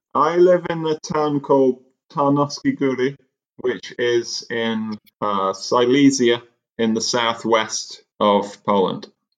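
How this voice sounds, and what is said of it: British English accent. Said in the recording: “Our listeners may gather from your accent that you were not originally from Poland. ... I'm originally from the UK”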